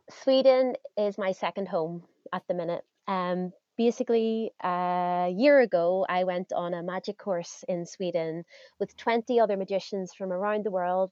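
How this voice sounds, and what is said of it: Northern Irish accent. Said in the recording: “the weird accent you have, you are from Northern Ireland”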